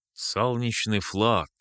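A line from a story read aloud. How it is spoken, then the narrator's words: Snorting. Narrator (Russian): хмыкнул я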